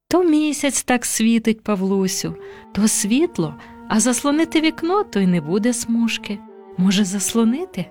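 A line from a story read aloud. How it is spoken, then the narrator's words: Plain. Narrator (Ukrainian): Сказала мама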